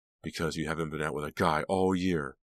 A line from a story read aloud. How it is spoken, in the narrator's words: Delia snapped